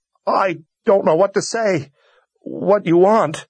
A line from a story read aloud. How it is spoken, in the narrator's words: he sobbed